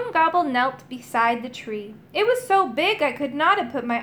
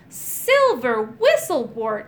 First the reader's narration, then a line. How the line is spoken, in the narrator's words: cried